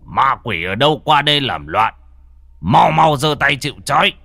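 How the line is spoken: Commanding shout. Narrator (Vietnamese): lão thầy quát

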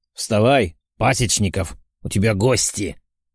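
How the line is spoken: Demon growling, then laughing. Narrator (Russian): прорычал демон и засмеялся

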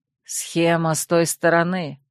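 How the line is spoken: Grumbling. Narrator (Russian): проворчал Катир

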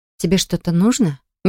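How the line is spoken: Soft question. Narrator (Russian): мягко спросила Поля

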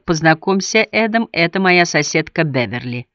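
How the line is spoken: Even, level voice. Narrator (Russian): ровным голосом добавила

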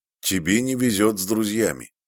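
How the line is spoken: Gloomy remark. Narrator (Russian): мрачно заметил он

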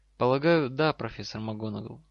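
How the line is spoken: Calm answer. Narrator (Russian): спокойно ответил Гарри

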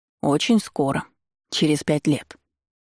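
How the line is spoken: Calm statement. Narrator (Russian): спокойно заявил Хантер

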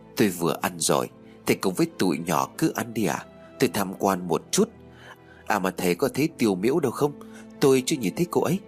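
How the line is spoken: Smiling reply. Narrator (Vietnamese): Tạ Vũ mỉm cười, cất giọng đáp lời của hiệu trưởng

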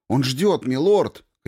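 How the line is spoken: Shout. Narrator (Russian): крикнул я

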